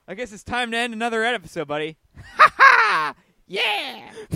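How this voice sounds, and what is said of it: High-pitched laughing voice. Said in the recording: “my impersonation of Parker is just like constant high-pitched laughter”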